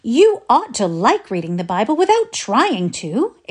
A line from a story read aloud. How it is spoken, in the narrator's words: exclaimed Felicity